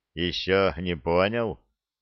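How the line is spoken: Ironic snort. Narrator (Russian): иронично хмыкнул незнакомец

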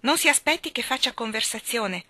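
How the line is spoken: Curt. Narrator (Italian): aveva detto seccamente

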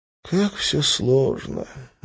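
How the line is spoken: Sigh. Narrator (Russian): вздохнул Лас

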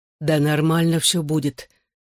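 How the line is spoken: Forced, trembling. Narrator (Russian): выдавил из себя, дрожа с ног до головы

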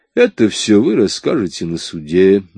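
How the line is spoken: Soft. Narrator (Russian): мягко сказал Мелли

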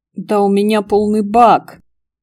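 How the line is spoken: Grumbling. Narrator (Russian): заворчал Караваев

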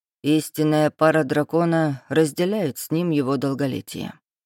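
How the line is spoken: Insinuating, silky. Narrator (Russian): вкрадчиво произнес Рейнар

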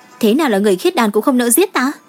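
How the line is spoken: Angry. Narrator (Vietnamese): Nàng ... giận dữ

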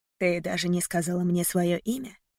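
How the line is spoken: Whisper. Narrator (Russian): прошептал

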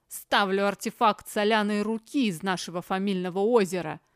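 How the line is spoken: Growling. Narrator (Russian): рыкнул тот, кого назвали Айдараш

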